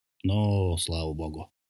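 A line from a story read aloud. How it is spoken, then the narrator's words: Sigh. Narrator (Russian): вздохнул он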